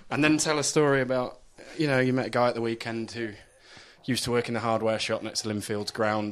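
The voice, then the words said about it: Put-on Belfast accent. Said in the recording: “Belfast ... You get the accent down”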